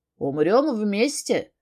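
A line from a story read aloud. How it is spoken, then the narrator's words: Wry grunt. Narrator (Russian): хмыкнул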